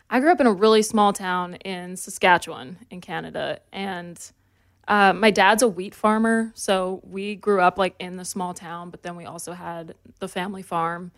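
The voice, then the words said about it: Slight country accent, faintly Canadian. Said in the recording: “You have an accent, which is interesting. ... not so much of a Canadian one. ... A little bit. ... it's just a little country accent”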